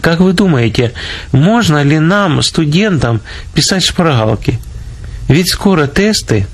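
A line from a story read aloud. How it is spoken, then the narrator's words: Timid young women asking. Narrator (Russian): две студентки и робко спросили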